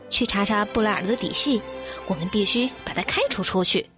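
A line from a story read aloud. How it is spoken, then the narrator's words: Whispering. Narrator (Chinese): 女公爵悄声地说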